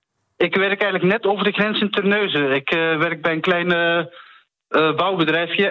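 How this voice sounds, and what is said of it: Flemish accent. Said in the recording (Dutch): “Ik hoor een, eh, een Vlaams accent.”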